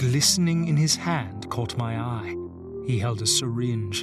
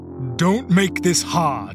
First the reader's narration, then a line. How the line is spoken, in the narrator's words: one of the men barked